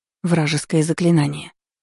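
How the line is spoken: Barely audible reply. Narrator (Russian): ответила едва слышно

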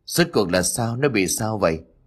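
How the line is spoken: Old man, trembling. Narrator (Vietnamese): Ông cụ liền run rẩy

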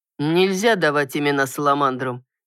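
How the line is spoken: Calm unruffled voice. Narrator (Russian): невозмутимым голосом произнес Алан

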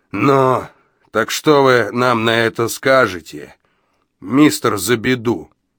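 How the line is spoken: Booming. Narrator (Russian): прогудел он

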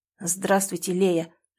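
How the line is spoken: Quiet, halting. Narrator (Russian): произнес он тихо и сбивчиво

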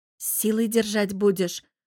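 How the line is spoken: Mocking question. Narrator (Russian): уточняю с издевкой

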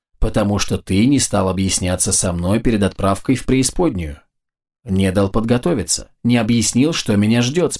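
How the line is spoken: Calm listing. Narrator (Russian): спокойно перечислил граб

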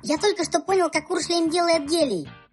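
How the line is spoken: Squeak. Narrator (Russian): пропищал Так

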